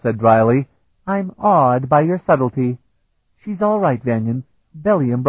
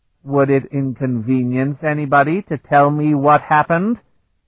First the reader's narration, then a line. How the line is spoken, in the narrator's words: He asked them in an icy voice